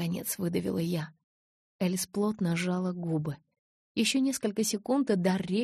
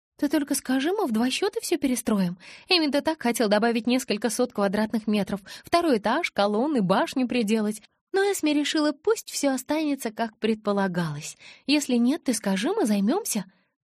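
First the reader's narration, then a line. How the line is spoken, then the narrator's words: Rapid chatter. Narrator (Russian): тараторила Элис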